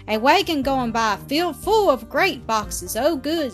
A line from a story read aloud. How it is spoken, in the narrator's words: shouted back the girl